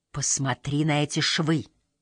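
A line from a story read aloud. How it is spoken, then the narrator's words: Whispering. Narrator (Russian): она, отпрянув, шептала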